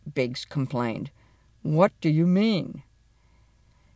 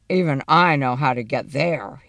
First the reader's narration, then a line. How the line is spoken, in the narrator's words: he growled